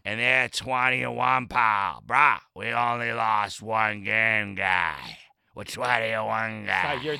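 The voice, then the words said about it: Exaggerated put-on Boston accent. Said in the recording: “What you're doing with your voice is awful. Don't do that. ... That's honestly the best sounding Boston accent you'll hear in weeks.”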